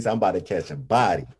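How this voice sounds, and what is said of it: Put-on Florida accent. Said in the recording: “with his Florida accent”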